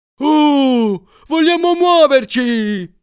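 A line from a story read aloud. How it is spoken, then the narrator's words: Shouting. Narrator (Italian): gridava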